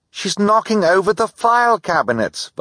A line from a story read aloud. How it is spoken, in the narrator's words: Violet cried